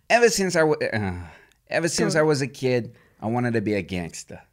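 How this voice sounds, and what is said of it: Imitated Goodfellas gangster accent. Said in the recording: “Goodfellas, which I really liked. Wait, can you give us the accent?”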